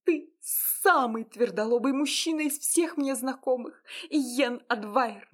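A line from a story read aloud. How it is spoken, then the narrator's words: Sudden shout. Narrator (Russian): Вдруг закричала она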